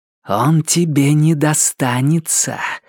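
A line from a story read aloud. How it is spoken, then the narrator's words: Hissing. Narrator (Russian): прошипела охотница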